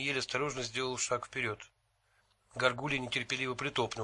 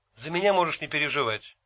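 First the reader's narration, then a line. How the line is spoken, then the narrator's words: Sharp, curt. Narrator (Russian): резко бросил Джин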